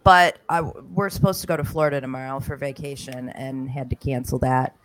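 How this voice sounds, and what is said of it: Hoarse, fading voice. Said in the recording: “I'm losing my voice, which I don't know why, because I don't feel sick”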